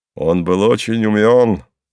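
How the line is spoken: Cheerful. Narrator (Russian): весело подхватил Пал Палыч

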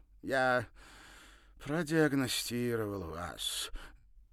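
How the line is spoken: Suddenly mournful voice. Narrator (Russian): неожиданно скорбным голосом сообщил он

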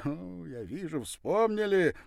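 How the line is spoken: Fast, cheerful chatter. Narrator (Russian): не к месту радостно затараторил он

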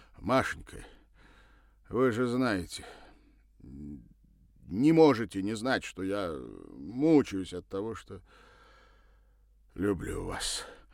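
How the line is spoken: Breathed out. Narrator (Russian): выдохнул он

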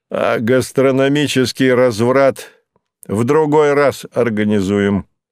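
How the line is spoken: Loud. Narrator (Russian): громко сказал

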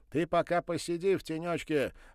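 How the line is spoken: Shout. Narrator (Russian): крикнул Сашечка

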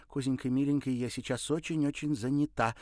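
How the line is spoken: Rapid chatter. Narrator (Russian): протараторила она

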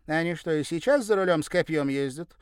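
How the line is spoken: Wry snort. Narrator (Russian): хмыкнула Сюзанна

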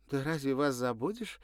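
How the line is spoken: Cheerful chirping. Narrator (Russian): весело щебетала та

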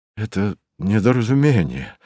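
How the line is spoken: Stunned mumble. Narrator (Russian): пробормотал ошарашенный Ракелов

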